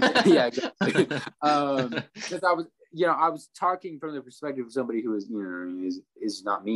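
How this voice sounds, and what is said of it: Usual voice. Nothing is said of it.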